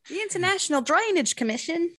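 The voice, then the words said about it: Put-on Australian accent. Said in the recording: “now you've lost our Australian audience too with that accent”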